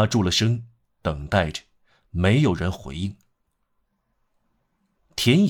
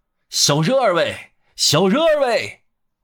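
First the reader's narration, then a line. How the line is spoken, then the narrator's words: Loud shouting. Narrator (Chinese): 于是他放开喉咙喊道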